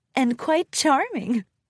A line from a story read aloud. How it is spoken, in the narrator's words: Rarity giggled and blushed